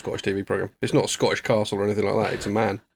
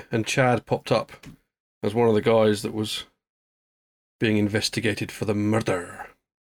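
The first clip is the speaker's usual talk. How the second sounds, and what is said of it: Put-on Scottish accent. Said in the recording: “I did it in a Scottish accent.”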